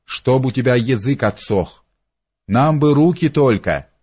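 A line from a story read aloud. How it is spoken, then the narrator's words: Laughing executioner. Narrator (Russian): засмеялся другой палач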